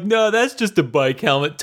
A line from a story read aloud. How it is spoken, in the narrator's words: totally trying to make another joke